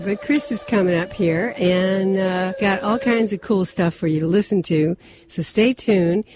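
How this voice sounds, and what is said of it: Strained, fading voice. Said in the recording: “I'm losing my voice, my throat”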